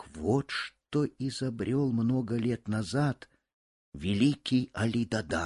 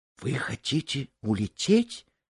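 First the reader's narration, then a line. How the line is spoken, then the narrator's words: Frightened question. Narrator (Russian): испуганно спросила Эта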